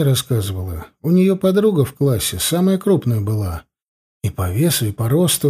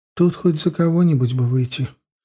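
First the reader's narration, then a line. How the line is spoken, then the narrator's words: Replied sadly. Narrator (Russian): грустно отозвалась Ветка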